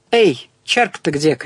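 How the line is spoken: Shouted. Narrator (Russian): крикнул Ник

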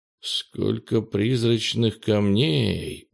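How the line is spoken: Pleased muttering. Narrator (Russian): довольно бормотал он

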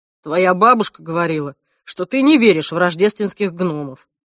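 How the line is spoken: Grumbling. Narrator (Russian): проворчал Альф

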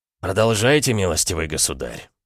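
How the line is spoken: Calm. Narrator (Russian): спокойно сказал Николай

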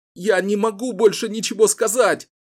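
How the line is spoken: Sobbing. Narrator (Russian): рыдал Ричард

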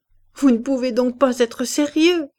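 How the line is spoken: Laughing reply. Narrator (French): répondait Madame de Berle en riant

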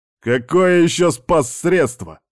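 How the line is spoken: Barking snap. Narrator (Russian): рявкнул Кондратьев

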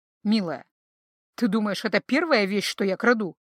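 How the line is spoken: Amused snort. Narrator (Russian): хмыкнул капитан

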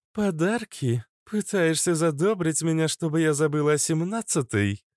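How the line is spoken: Laughing. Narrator (Russian): рассмеялась Иштар

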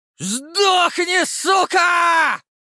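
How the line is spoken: Yelled. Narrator (Russian): Заорал Леший

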